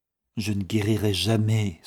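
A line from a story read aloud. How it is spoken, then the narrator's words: Firm sigh, sick woman. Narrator (French): soupira la malade, toujours très ferme sur ce point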